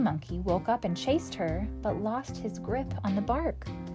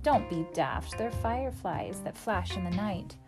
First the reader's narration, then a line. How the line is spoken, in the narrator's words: Night Monkey laughed and said